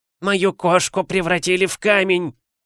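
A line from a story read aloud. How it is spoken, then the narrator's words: Shriek. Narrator (Russian): завизжал он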